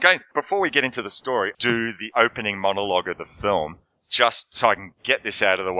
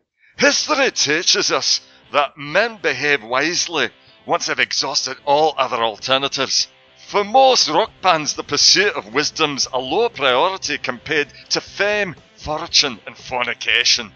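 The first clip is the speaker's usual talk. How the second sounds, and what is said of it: Put-on Scottish accent. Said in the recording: “in my best Bill O'Connell accent ... if there are any Scots out there, you can please write back and tell me whether I've just”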